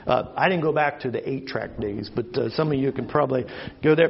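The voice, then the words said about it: Southern drawl accent. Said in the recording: “my bad southern drawl”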